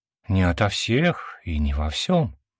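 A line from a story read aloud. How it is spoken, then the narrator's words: Gentle objection. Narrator (Russian): мягко возразила Виктория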